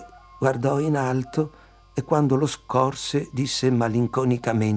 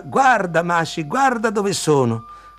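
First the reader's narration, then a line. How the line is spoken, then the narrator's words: Shouted downward. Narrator (Italian): urlò giù alla nonna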